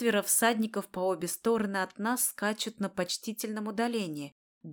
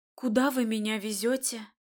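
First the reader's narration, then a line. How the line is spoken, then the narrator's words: Forced out with difficulty. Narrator (Russian): Только и могу выдавить я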